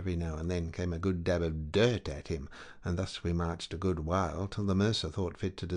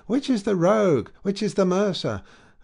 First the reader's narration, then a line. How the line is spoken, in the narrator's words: they cried out as they went